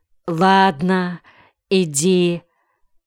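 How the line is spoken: Tearful sighing mother. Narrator (Russian): Мать смахнула слезу и, тяжело вздохнув, сказала

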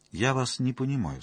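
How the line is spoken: Calm. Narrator (Russian): спокойно произнес он

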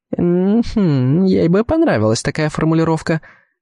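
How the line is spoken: Girl laughing, reminiscing. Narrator (Russian): рассмеялась девушка каким-то своим воспоминанием

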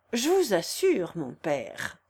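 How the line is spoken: Harmonious, noble voice. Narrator (French): dit-il d'une voix harmonieuse et avec l'accent le plus noble

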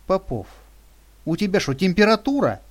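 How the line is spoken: Exclaiming. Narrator (Russian): воскликнула Лиля

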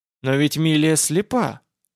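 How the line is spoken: Uncertain objection. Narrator (Russian): возразил я неуверенно

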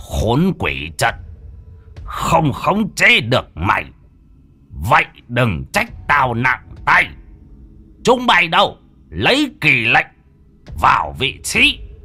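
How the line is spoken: Menacing growl. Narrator (Vietnamese): Lão tà sư gằn giọng

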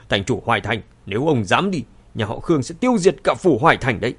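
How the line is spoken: Angry, threatening. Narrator (Vietnamese): Khương Nham lập tức biến sắc, tức giận nói

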